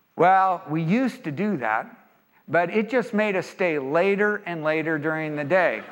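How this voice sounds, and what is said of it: Imitated Texas drawl. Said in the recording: “in their beautiful Texas drawl”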